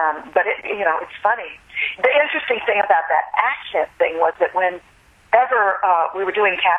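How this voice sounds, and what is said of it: Usual voice. Nothing is said of it.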